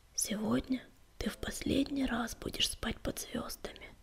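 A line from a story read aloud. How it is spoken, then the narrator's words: Whisper. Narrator (Russian): прошептал он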